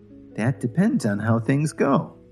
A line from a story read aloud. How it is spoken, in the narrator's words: Lily said very calmly